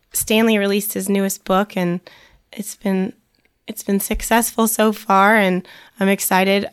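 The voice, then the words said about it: Voice partly lost, strained. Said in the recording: “I'm losing my voice a little bit. I'm sure people can tell”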